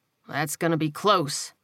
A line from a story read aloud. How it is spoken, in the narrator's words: he muttered